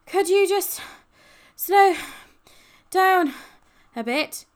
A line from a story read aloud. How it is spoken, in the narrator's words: gasped Ben, feeling as though someone had dumped a small truck on his chest